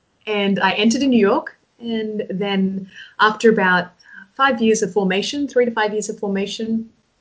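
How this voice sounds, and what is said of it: Australian accent. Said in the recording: “from Australia, Sydney, Australia. You probably picked up on my accent”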